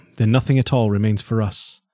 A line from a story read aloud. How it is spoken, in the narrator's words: sighed Sir John, downcast